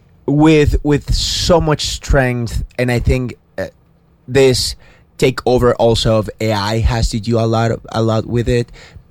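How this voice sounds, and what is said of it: Venezuelan accent. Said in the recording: “My Venezuelan accent is kicking in”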